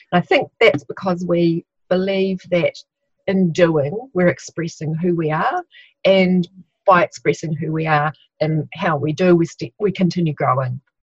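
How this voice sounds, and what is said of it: New Zealand accent. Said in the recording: “sounds better with the New Zealand accent too”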